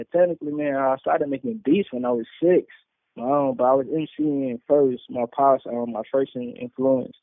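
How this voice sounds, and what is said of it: New York accent. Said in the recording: “how he got a damn New York accent”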